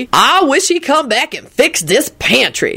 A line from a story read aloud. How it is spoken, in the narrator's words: Lucretia grumbled darkly